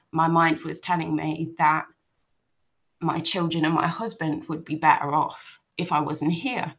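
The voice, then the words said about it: Emotional, tearful voice. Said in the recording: “I don't know why I'm getting emotional”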